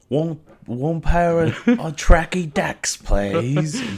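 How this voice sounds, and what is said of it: Attempted Australian accent, sounds British. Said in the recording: “Australian accent ... It's more British.”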